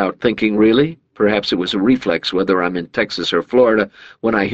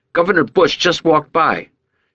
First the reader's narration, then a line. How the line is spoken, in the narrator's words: the kid yelled